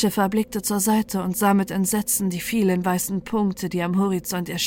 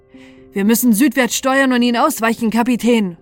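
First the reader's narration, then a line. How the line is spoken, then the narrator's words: Helmsman calling out. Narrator (German): rief der Steuermann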